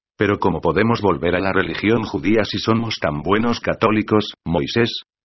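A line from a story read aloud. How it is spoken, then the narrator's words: Plain question. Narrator (Spanish): preguntó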